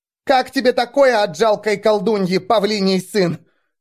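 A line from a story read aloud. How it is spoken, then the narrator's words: Furious tearful shout. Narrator (Russian): В ярости, несмотря на слезы, крикнула она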